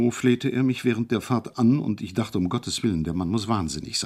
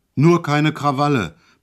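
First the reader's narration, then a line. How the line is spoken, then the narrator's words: Sudden roar. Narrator (German): brüllte er auf einmal los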